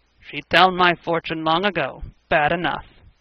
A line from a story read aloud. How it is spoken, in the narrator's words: Frank grunted